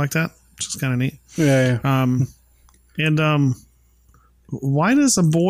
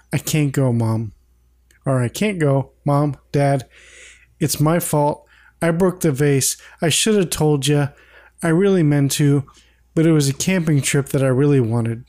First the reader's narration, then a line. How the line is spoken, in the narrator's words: Peter sadly says